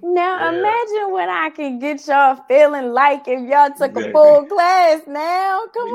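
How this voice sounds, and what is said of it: Baltimore accent. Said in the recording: “you sound like you got a Baltimore accent. ... yeah, she definitely does.”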